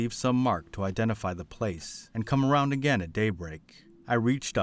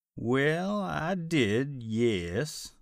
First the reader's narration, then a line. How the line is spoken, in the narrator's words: he said with a drawl